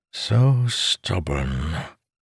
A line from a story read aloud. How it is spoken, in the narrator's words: codger sighed